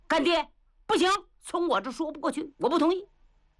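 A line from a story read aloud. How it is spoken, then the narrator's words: Loud roar. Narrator (Chinese): 有人大吼一声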